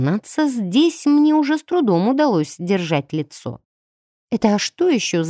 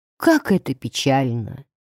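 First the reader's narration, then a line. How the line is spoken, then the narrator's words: Muffled sigh. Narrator (Russian): вздохнули из-под капюшона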